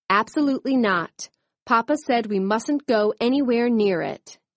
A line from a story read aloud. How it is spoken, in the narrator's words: answered Amelia